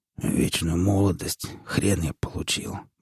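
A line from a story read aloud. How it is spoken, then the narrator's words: Muttered. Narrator (Russian): бормотал он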